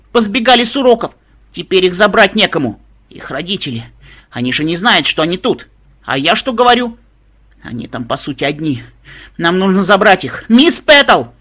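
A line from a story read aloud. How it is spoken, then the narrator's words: Repeated shouting. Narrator (Russian): Твинкл Шайн крикнула несколько раз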